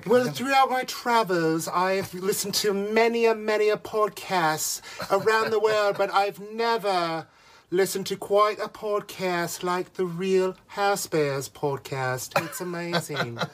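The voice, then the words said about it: Imitates another person's voice and accent. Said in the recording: “You thought I was going to do a Dorit ... Do I hear Doree? ... My accent is just going crazy.”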